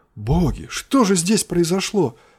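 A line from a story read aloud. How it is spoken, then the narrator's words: Exclamation. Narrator (Russian): воскликнул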